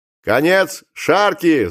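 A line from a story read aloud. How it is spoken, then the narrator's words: Captain's shout. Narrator (Russian): закричал капитан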